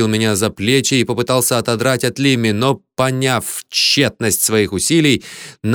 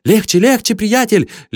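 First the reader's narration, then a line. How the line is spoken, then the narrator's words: Sickly babbling. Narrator (Russian): лепетал позеленевший Лимми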